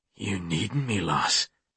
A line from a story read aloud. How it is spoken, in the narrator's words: He asked in that rumbling brogue